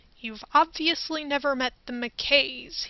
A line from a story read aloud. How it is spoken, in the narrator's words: he mumbled with a slight smirk